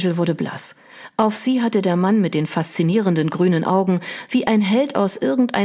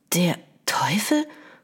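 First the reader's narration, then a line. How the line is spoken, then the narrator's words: Whispered. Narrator (German): flüsterte sie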